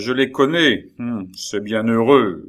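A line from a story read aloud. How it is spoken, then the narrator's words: Sergeant grumbling. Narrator (French): grommela le sergent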